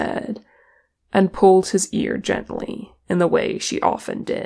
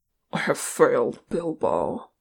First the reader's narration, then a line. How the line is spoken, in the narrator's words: Thorin muttered